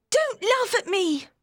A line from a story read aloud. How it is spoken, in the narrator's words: she cried angrily